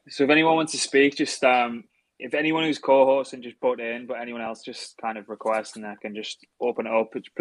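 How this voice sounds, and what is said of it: Northeast English accent. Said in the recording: “We like listening to your accent ... Scottish ... Yeah, you're not too far off. It's from a little town in the northeast of England called Hartlepool”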